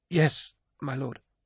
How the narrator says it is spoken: she stammered, horrified at the mess of her stateroom, and that the War Master should see it so untidy

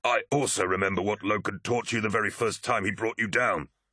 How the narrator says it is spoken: gasped Tarvitz

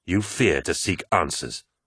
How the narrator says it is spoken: asked Sejanus angrily

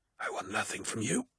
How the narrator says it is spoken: hissed the dying man

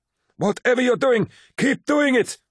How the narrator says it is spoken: cried Ingmei Singh

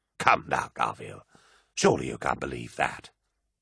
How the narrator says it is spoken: scoffed Sinderman

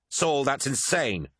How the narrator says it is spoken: cried Lucius

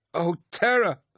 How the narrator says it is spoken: Keela cried, retching violently

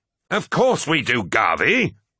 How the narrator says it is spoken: bellowed Abaddon

